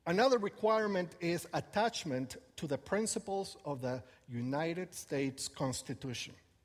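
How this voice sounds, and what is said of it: Speaks English with an accent. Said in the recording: “Thank goodness it doesn't say you need to lose your accent, right? Otherwise, I would be in trouble.”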